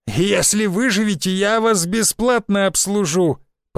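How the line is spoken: Old woman's hoarse wheeze. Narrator (Russian): прохрипела дама, похожая на старую проститутку

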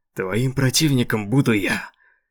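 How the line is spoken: Displeased growl. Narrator (Russian): Королева в недовольстве зарычала на врага

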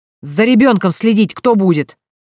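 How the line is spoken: Yelling, spitting and swearing. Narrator (Russian): орал, плюясь и матерясь, капитан полиции

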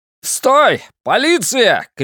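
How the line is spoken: Shout. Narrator (Russian): крикнул я

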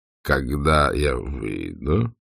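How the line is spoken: Quiet questioning. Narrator (Russian): тихо переспросил он

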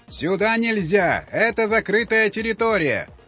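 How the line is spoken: Shouting through loudspeaker. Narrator (Russian): кричал офицер в громкоговоритель

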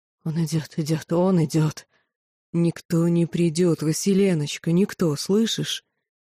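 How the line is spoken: Soft, tender, soothing. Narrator (Russian): мягко, нежно, стараясь успокоить, произнес лорд Орханы

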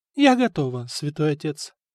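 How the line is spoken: Calm. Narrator (Russian): спокойно ответила Анна

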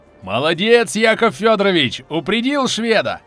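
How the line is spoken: Joyful shout. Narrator (Russian): Боцман Кошкин радостно закричал

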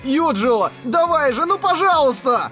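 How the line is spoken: Desperate shout. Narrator (Russian): Кирито отчаянно закричал

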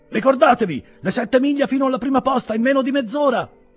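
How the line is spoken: Yelled. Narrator (Italian): urlò Mr

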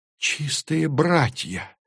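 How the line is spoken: Astonished exhale. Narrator (Russian): пораженно выдохнула Тури

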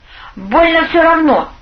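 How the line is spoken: Angry statement. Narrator (Russian): сердито заявил он

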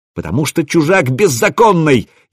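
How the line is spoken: Furious shout. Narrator (Russian): яростно выкрикнул Расмус

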